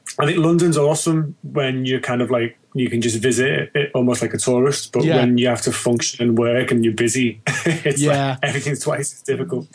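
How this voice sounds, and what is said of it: Liverpool English accent. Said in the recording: “You're not native to London, though, obviously, by the accent. ... I'm Liverpudlian, born and bred, originally.”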